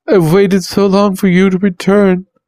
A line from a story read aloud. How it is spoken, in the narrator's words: said to the flames, sobbing his words out